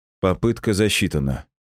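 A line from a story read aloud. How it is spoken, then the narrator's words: Calm. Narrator (Russian): спокойно сказал я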